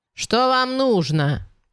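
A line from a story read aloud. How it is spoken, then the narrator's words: Shouted through door. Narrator (Russian): крикнула она через дверь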